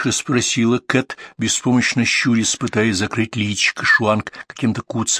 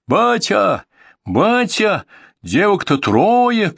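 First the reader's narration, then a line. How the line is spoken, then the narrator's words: Stranger shouting. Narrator (Russian): кричал этот незнакомый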